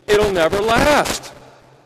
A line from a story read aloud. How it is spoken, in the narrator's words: she blurts out